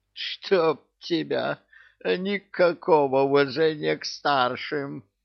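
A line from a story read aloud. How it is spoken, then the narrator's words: Creaky voice. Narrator (Russian): Проскрипел Кощей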